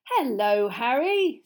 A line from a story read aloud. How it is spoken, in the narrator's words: said Mr